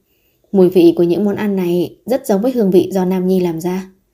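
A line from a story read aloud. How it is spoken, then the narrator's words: Astonished question. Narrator (Vietnamese): Biên Kình Ngôn hỏi bằng giọng kinh ngạc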